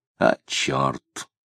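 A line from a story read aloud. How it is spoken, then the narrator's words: Muttered. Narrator (Russian): пробормотал Тагильский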